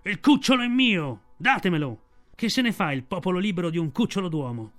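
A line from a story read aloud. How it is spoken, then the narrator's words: Shouting voice. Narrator (Italian): la voce di Shere Khan che gridava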